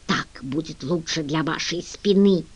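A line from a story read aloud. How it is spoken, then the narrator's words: Mocking whisper. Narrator (Russian): шепотом передразнила его Генри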